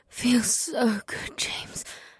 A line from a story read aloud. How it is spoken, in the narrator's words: Sid whispered as her head fell backward